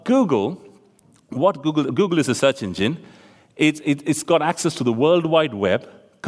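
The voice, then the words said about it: Speaks with a noticeable accent. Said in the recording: “you can't understand my accent at all”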